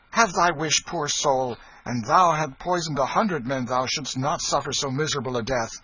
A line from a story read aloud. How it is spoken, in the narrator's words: he cried out